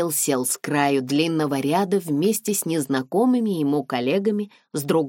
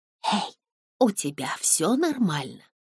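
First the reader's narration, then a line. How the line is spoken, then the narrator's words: Whisper. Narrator (Russian): прошептала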